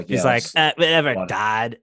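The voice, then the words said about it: Valley girl impression. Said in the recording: “That's a great impression. ... Yeah, like a valley girl. Like a valley girl.”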